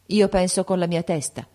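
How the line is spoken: Son's cold reply. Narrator (Italian): rispondeva freddamente il figlio

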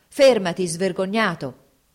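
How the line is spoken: Shouting. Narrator (Italian): gridò

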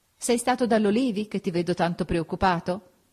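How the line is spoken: Laughing question. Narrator (Italian): Augusta, ridendo, mi domandò

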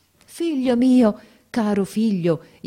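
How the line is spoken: Joyful exclamation. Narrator (Italian): esclamai con un trasporto di gioia

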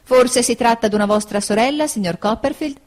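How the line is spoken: Exclaiming after a pause. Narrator (Italian): essa esclamò dopo una pausa

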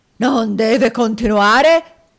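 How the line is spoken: Shouted, almost a scream. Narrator (Italian): gridò Squeers quasi con un urlo

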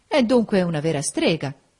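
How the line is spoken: Exclaimed. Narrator (Italian): esclamò Federico Lynn

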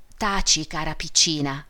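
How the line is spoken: Mother's whisper. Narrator (Italian): bisbigliò la madre

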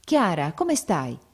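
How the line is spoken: Exclaimed. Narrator (Italian): esclamò

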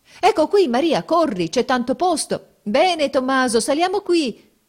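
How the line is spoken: Crowd shouting. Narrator (Italian): si gridava

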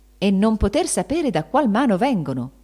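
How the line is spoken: Exclaiming. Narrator (Italian): esclamava Benedetto

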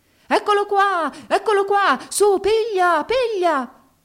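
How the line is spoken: Shouting at top of lungs. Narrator (Italian): Egli gridava a tutta gola

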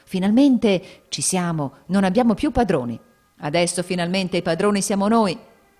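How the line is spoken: Crowd exclaiming. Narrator (Italian): I popolani esclamando

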